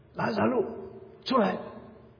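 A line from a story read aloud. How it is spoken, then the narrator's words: Loud. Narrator (Chinese): 大声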